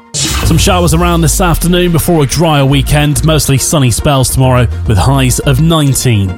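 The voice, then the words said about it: Unwell, very deep voice. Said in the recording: “Hope your voice gets better soon. Sounding very, very deep indeed.”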